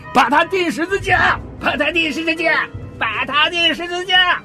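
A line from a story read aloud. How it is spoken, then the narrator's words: Shouting with all might. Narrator (Chinese): 他们就极力地喊着说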